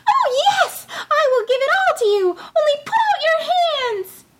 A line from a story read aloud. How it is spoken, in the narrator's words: Tom Thumb called out once more as loud as he could